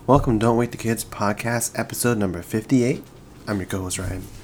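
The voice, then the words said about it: Speaking quietly in a low voice. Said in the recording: “I feel like I'm talking really low right now”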